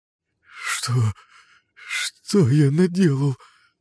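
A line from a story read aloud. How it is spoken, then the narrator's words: Whimpering, then breaking off. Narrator (Russian): Захныкал было кореец, но замер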